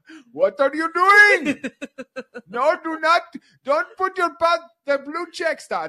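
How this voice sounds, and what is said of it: Imitates a scammer from a video. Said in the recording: “I'm literally doing an impression of a video that's a real video”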